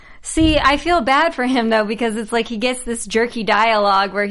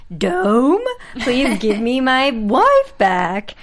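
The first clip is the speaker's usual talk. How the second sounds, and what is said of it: Big Jim impression, sounding like Shaggy. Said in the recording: “Big Jim impersonation ... It was more like Shaggy from Scooby Doo ... That's more like Scooby”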